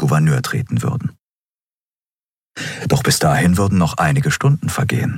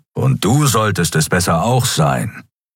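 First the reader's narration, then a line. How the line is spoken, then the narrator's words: Growled. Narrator (German): knurrte Keru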